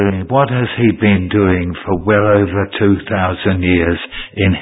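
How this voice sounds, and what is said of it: Usual voice. Nothing is said of it.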